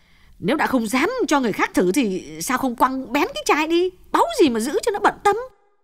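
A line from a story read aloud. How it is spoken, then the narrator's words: Sharp, irritated. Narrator (Vietnamese): Như lại gắt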